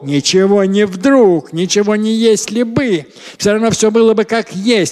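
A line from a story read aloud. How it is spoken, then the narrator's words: Grumbling. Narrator (Russian): ворчал Максим Сергеевич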